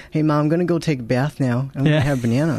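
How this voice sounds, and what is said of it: Child-like American accent. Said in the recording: “I used to have the American accent... Like fully down.”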